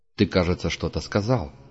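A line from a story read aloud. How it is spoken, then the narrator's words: Cold question. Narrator (Russian): холодно спросил Пард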